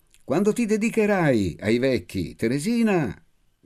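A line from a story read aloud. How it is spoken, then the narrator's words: Shouting to someone distant. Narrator (Italian): gridai per essere inteso da lei, che m'era già lontana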